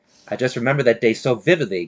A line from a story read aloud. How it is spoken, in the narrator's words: Kearney said